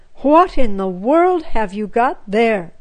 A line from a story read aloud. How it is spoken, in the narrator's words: cried Mama